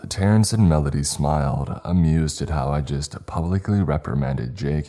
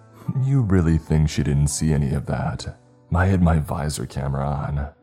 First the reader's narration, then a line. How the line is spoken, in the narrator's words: Jake scoffed